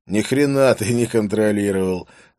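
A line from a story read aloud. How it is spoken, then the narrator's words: Laughing. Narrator (Russian): засмеялся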